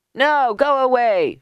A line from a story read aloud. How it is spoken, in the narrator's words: shouted Mendel